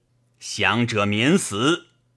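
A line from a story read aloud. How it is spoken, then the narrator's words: Furious questioning. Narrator (Chinese): 昭大怒，逐一问曰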